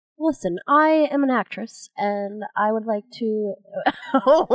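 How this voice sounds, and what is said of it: Put-on British accent, not convincing. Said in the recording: “I am trying a British accent today ... You don't have an actual British accent, neither does Kate.”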